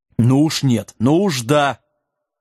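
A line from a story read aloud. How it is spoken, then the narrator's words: Stern shout. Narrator (Russian): строго прикрикнул волшебник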